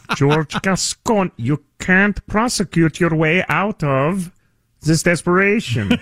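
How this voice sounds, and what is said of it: George Gascon impression, Kermit-like voice. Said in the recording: “pretty good George Gascon impersonation ... It's as if Kermit the Frog had been born in Romania ... That's pretty good.”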